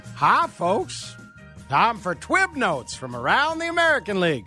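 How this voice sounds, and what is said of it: Poor Mel Allen impression, hayseed accent. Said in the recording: “somebody who can do a real good Mel Allen ... That's not good. It sounds like time for timer or some other awful hayseed accent.”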